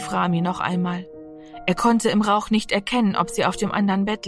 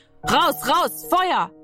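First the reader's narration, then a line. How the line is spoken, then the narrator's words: Urgent scream. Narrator (German): schrie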